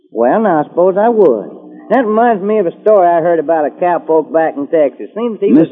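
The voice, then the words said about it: Texan accent. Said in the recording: “do you ever get tired of that accent? ... I just talk the way folks talk in Texas. This ain't no accent, son. That's Texas talk.”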